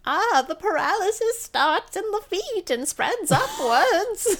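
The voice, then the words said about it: Poor little old lady voice. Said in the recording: “That's not a very good little old lady voice.”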